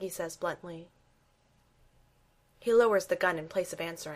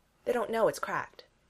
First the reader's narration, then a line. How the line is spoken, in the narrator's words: says Steve